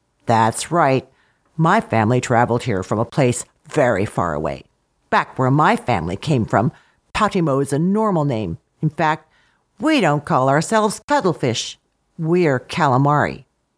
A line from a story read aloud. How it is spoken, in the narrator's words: in a low, serious voice said